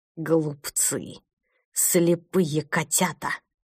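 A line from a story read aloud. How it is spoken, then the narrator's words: Hissing in darkness. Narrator (Russian): прошипел его голос в темноте коридора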